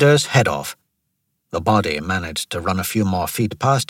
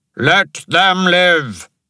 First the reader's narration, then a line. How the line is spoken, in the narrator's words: Ashok bellowed